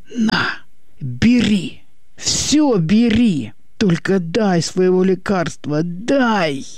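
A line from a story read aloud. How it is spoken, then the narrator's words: Hoarse strangled whisper, threatening. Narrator (Russian): сиплым сдавленным шепотом выкрикнул, уже без надежды, но с угрозой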